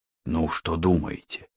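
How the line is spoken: Quiet question. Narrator (Russian): тихо спросил Мухаммед

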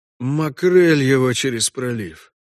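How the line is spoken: Muttering. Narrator (Russian): пробормотал Парт

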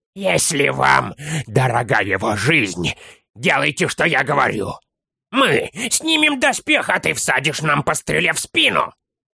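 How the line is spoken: Hoarse with rage. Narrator (Russian): Малыш хрипел от ярости

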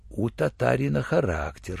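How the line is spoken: Almost respectful whisper. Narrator (Russian): шепнул врач чуть ли не уважительно

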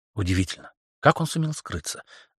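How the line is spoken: Thoughtful. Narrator (Russian): задумчиво проговорила Берни

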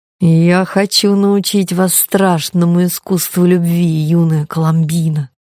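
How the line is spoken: Cooing seductive voice. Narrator (Russian): проворковал козлоногий обольститель

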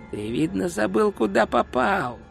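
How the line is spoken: Dry hiss. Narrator (Russian): прошипел другой голос, сухой как труд

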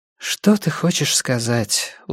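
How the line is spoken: Tired sigh. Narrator (Russian): устало вздохнула она

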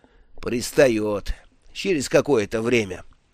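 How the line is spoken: Plain. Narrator (Russian): ответил хозяин таверны

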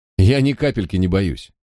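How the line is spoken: Scoffing. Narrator (Russian): я хмыкнул

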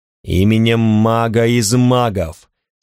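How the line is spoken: Terrifying, chilling voice. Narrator (Russian): сказал я таким страшным голосом, что моя собственная кровь едва не застыла в жилах

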